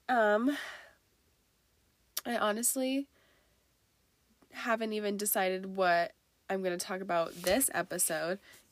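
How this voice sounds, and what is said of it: Congested, rough old-man-sounding voice. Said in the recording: “I'm trying to kick this cold and it's like in my head right now ... my nose is draining and I have like this gross cough ... I sound like an old man, it's because I'm sick”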